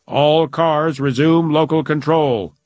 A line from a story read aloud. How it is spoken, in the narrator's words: intoned a voice